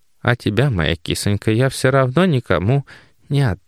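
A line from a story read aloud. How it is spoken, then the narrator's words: Purring. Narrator (Russian): промурлыкала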